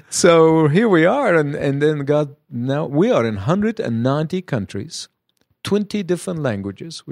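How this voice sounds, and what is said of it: Foreign accent. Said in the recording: “strange-sounding name ... to our ears. An accent.”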